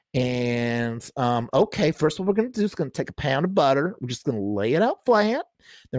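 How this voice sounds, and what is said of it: Exaggerated Southern American accent. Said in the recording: “that was a terrible Southern accent ... who's that racist Southern lady ... Let's imagine Paula Deen”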